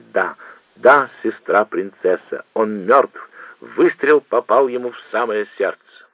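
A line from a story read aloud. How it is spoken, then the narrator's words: Overjoyed laughing, giggling reply. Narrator (Russian): принц Игнатий вне себя от радости ответил, смеясь и хихикая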